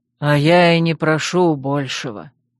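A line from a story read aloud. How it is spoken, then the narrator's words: Heavy sigh. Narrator (Russian): тяжело вздохнул Тириниэль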